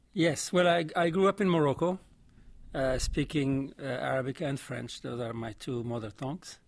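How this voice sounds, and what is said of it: Vaguely French-sounding accent. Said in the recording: “you're not from Alabama when they hear your accent. That sounds vaguely French to me.”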